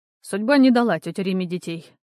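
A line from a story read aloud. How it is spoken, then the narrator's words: Dry reply. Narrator (Russian): сухо ответил он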